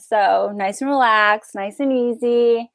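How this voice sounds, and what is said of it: Put-on relaxed California accent. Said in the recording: “like California ... It's a nice accent to do ... Hopefully people from California find it convincing ... that's my best attempt at it”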